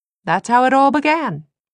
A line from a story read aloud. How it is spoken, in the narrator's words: Will said cheerfully, as if oblivious